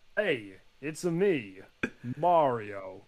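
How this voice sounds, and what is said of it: Mario impression. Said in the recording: “your best Mario impersonation”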